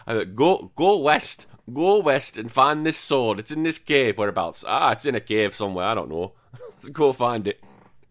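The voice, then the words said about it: Yorkshire hill accent. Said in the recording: “We got like a guy from the hills, and he speaks a bit like this in Yorkshire... I think his accent would actually come across quite well”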